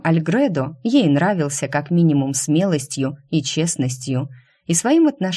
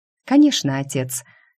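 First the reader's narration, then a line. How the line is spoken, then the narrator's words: Calm, feigned confidence. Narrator (Russian): Шу постаралась сказать это спокойно и уверенно, хотя уверенности вовсе не ощущала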